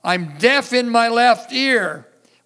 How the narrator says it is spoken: A lady over on this side shouts out

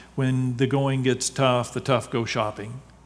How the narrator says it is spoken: decided aloud, smiling grimly

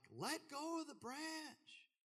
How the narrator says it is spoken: Somebody yelled back

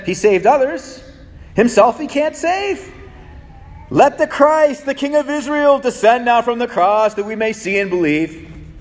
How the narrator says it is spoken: the chief priests also mocking among themselves with the scribes, they said

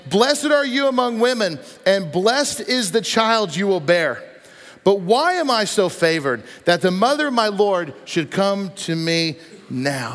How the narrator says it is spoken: In a loud voice, she exclaimed

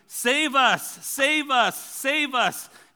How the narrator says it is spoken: The people were shouting

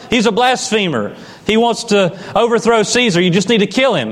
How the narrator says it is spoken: religious leaders who are just shouting

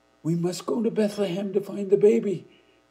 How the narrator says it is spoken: Ruel shouted

